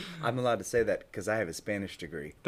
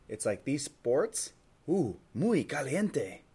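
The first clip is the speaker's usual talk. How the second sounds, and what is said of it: Weak put-on Spanish commercial accent. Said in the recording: “That wasn't like a Spanish accent, though. ... Yeah, it was like a Del Taco commercial.”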